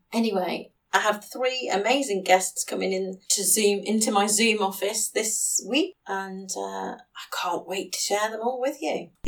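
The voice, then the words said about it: Sore, strained voice. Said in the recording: “my voice has been quite sore today ... I've ended up with a sore throat”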